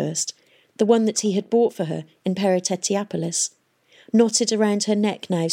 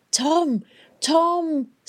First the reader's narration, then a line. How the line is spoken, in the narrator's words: somebody kept shouting